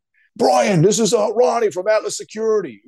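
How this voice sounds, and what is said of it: Heavy Bronx accent. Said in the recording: “with that heavy Bronx accent.”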